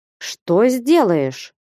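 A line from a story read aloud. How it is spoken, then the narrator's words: Defiant question. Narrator (Russian): вызывающим голосом спросил Потап Максимыч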